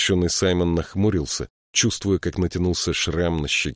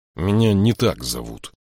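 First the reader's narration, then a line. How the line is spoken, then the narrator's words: Grumble. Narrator (Russian): проворчал он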